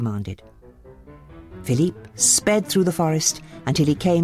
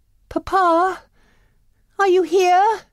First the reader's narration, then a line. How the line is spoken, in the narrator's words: cried Belle